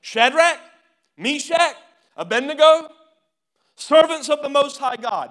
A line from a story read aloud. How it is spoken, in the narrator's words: Nebuchadnezzar shouted